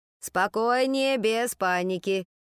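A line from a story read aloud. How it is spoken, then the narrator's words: Deep bass echo. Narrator (Russian): вторила ей басом мисс Боулер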